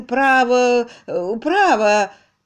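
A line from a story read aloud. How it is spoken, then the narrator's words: Protesting tone. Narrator (Russian): Несколько раз он протестующим тоном произносил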